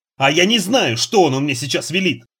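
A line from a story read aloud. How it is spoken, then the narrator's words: Shouting in someone's face. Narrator (Russian): закричал прямо в лицо девушки Нанос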